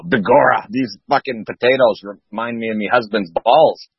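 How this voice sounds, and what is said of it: Weak put-on Irish accent. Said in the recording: “The Irish accent, little bit, well, you need work on that.”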